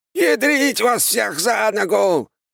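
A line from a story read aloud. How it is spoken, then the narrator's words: Sudden shout. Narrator (Russian): внезапно крикнул Аполлон Генрихович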